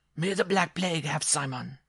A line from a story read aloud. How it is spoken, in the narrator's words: the dwarf cried